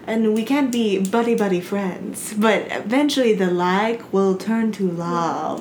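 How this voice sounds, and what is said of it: Put-on Italian accent. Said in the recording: “that's some A+ Italian accent for you.”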